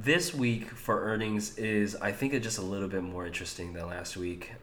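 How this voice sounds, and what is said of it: Strained, worn-out voice. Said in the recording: “my voice is getting a little too thrashed”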